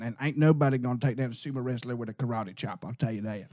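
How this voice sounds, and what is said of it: Put-on Southern American accent. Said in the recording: “I'm still so thrown off by this accent. ... American accent. ... I was raised by Southern Americans.”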